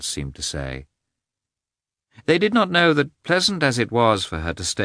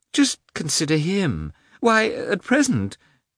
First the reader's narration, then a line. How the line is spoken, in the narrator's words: the old princess's voice unexpectedly quavered